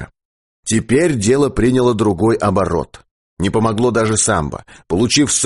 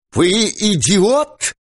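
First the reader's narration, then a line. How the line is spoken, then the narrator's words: Ringing, tense voice. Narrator (Russian): звенящим голосом сказал он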